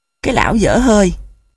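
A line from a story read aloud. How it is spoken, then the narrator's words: Near hiss. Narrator (Vietnamese): Nụ gần như rít lên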